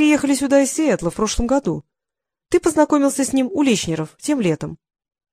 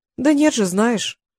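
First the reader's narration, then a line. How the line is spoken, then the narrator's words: Soft. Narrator (Russian): мягко произнесла Апал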